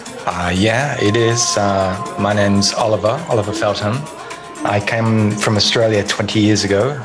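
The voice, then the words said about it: Slight Australian accent. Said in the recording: “Is that a slight hint of Australian accent I detect?”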